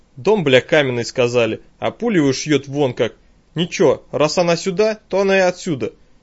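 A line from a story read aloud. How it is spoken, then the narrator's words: Indistinct grumble. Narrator (Russian): Не вполне ясно пробурчал Виктор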